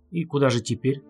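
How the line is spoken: Plain. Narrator (Russian): спросил он

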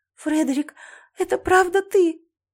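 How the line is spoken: Sobbing. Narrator (Russian): Я всхлипнула

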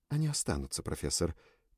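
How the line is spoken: Quiet. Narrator (Russian): тихо сказала Лючи

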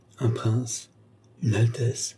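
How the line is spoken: Quiet, hushed voice. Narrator (French): fit-il tout bas

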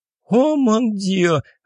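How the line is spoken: Joyful shout. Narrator (Russian): радостно закричала Аннет

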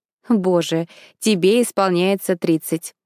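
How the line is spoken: Laughing over the phone. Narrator (Russian): Он засмеялся на другом конце линии

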